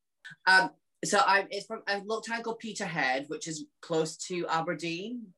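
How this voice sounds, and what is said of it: Hard-to-place accent. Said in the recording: “I can't figure out your accent”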